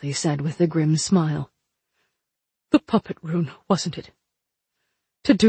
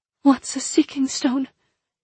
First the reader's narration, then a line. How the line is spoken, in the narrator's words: Princess Inessa asked shakily